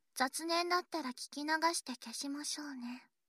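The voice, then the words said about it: Whispering. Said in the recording (Japanese): “ささやき”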